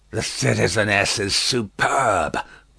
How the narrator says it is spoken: croaked the juryman

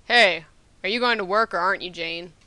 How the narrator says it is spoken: a voice boomed

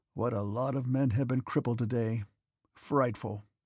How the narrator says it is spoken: asked the soldier, and not waiting for an answer, he gave a grunt and added

